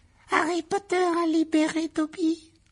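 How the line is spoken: Small high-pitched exclaim. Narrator (French): s'écria l'elfe d'une petite voix aiguë

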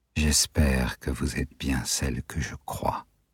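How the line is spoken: Murmured. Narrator (French): murmura-t-il

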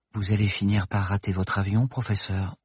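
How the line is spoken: Soft whisper in ear. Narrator (French): lui glissa doucement Paloma à l'oreille

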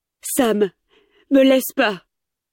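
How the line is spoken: Pleading. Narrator (French): en l'implorant de ne pas partir

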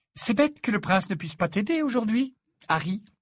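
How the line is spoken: Cheerful tone. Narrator (French): dit-elle d'un ton allègre

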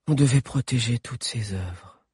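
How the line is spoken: Sighed. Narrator (French): soupira Alix

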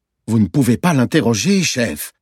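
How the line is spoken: Alarmed tone. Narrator (French): dit Kali d'un ton alarmé

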